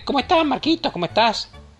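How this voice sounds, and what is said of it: Shrill, piercing high-pitched voice. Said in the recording (Spanish): “Esa misma voz de pito penetrante”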